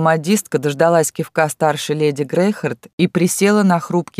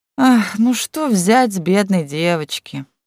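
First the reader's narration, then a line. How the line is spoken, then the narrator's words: Feigned sigh. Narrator (Russian): притворно вздохнула Едвига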